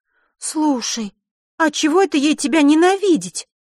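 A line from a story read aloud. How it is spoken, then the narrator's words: Emotional, disapproving exclamation. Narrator (Russian): Не сдержав эмоций, воскликнула Захара … с крайним неодобрением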